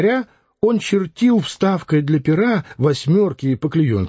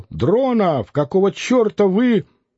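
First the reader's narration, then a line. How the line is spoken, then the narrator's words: Editor shouting. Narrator (Russian): редактор закричал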